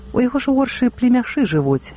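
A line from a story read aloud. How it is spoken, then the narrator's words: Calm remark. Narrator (Belarusian): спакойна зазначыў гаспадар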